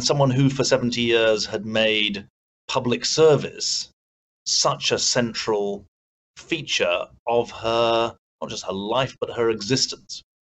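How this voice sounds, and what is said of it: British accent. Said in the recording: “I'm obviously a Brit, as you can tell from my accent”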